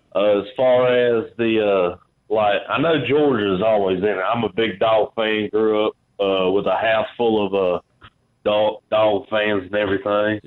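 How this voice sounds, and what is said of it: Southern US country accent. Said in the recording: “my country accent”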